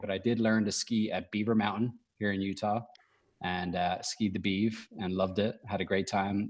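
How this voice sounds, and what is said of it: Irish accent. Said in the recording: “where that accent come from ... I'm from Ireland”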